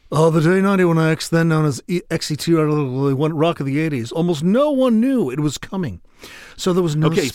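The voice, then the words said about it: Impression of Jim LaMarca. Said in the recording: “I'm going to do my impersonation of Jim LaMarca.”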